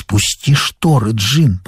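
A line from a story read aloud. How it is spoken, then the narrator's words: Whisper. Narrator (Russian): прошептала мать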